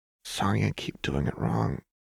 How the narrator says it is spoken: Jinx murmured

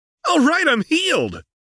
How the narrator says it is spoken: Goku said excitedly

